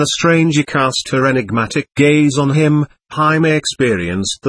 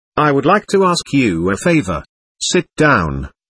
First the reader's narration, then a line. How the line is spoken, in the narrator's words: Jaime invited him kindly